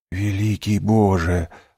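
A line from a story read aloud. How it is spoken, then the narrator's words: Whisper. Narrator (Russian): прошептал Дантес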